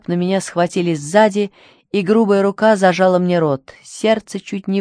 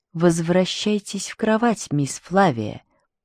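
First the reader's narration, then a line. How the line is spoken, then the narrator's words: Hissed into ear. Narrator (Russian): прошипели мне в ухо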